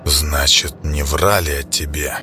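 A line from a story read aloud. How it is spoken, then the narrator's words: Whispered. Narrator (Russian): прошептал военачальник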